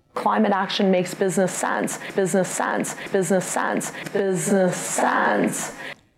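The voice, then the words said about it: Vocal fry, Kardashian-style affectation. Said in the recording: “it was all said with a Kardashian affectation. Actually, it's not really up talking, it's more a vocal fry.”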